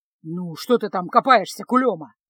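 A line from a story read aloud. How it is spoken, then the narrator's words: Grumble. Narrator (Russian): проворчал он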